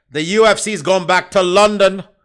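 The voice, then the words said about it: Weak put-on accent. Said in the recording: “That was a half-assed attempt at an accent.”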